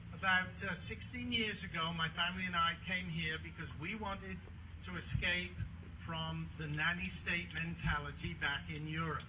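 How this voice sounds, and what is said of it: Foreign European accent. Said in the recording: “As you might guess from my accent, I'm not from around here”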